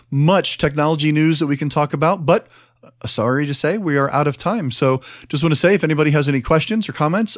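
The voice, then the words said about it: Unusual accent for the show. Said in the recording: “Strange accent and all”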